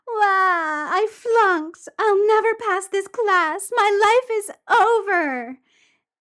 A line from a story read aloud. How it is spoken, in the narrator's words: Wakaba starts to wail